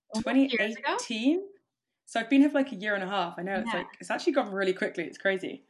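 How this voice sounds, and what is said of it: London English accent. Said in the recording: “can't tell from my accent, I'm from London, England, UK”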